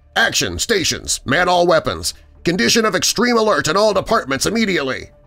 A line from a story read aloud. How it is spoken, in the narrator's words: snapped